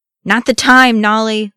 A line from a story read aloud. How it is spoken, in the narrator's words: Loni hollered